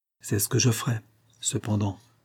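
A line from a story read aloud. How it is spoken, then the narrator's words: Murmured. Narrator (French): murmura-t-il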